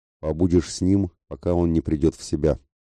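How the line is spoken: Stern. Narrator (Russian): строго сказал

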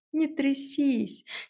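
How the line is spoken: Giggling. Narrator (Russian): хихикнула я

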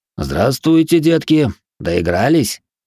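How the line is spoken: Stern guard's question. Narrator (Russian): строго спросил стражник

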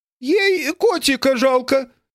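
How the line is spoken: Loud. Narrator (Russian): так же громко сказала мадам Тиффани

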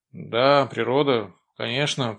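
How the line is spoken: Muttering. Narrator (Russian): пробормотал Авдей

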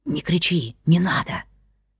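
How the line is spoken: Soft whisper. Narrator (Russian): тихо прошептал

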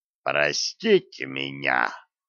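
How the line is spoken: Cold. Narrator (Russian): холодно сказал Вулф

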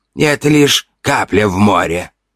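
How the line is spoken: Sighing. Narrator (Russian): вздыхала Ори

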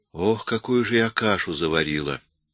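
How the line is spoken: Sighing. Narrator (Russian): вздохнула

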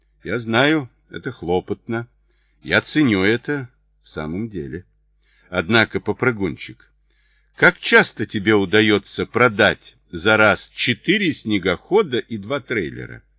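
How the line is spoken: Sighing. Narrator (Russian): Трид вздохнул

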